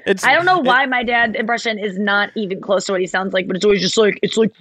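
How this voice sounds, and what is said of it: Usual voice. Nothing is said of it.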